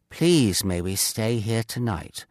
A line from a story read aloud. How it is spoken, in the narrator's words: one of them asked quietly